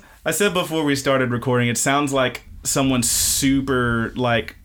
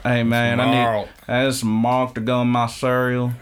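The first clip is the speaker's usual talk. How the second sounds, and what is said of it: Exaggerated put-on country accent. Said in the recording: “with a really weird, like, I don't know, country accent”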